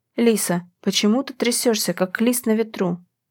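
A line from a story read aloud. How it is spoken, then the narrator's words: Quiet whisper. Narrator (Russian): Тихо прошептал Макс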